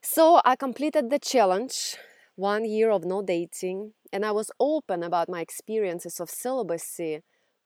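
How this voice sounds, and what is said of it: Russian accent. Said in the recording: “if you haven't figured out from my accent yet, I grew up in Russia”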